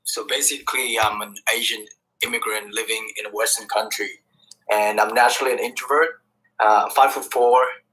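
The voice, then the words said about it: Vietnamese accent. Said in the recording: “This is what they call a Vietnamese accent.”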